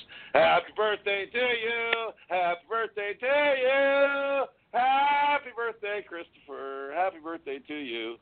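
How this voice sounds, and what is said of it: Loud sung happy birthday. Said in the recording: “cover your ears ... I have such a pure radio voice.”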